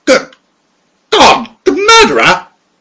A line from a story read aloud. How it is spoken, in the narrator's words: he choked